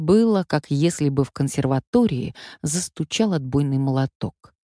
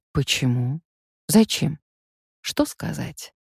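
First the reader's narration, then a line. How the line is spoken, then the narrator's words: Quiet question. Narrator (Russian): Так же тихо она спросила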